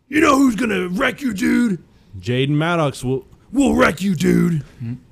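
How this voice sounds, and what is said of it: Imitates another person's voice. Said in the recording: “Are you doing the Hulk Hogan impression?... I'll do the accent, I'll do the impression on everything besides my name.”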